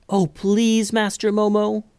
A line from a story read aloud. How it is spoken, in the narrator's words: pleaded Daisy